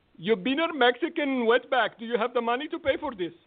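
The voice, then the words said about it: Thick Indian accent. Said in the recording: “he had a heavy accent ... in the thickest Indian accent you've ever heard”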